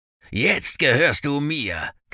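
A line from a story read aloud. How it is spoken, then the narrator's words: Growling. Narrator (German): knurrte Jenkins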